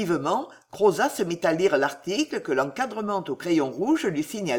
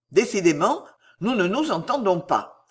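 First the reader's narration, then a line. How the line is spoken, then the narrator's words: Exclaiming. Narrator (French): s'écria Roger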